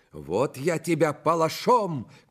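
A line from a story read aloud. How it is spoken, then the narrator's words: Galloping courier shouting. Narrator (Russian): кричал скакавший навстречу фельдъегерь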